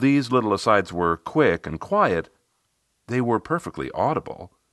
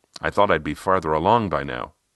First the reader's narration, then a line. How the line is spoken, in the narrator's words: she muttered